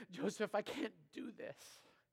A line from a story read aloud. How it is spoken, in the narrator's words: panting and exhausted, she whispered to him and said